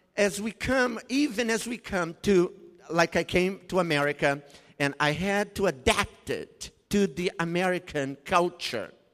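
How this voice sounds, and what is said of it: Brazilian accent. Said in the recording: “I still have the Brazilian culture intrinsically inside of me. You can tell that by the accent.”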